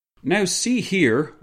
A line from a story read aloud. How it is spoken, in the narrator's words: yelled as he barged into the room